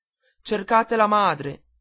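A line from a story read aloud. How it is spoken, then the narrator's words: Shouting to a crowd. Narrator (Italian): gridava il signore alla folla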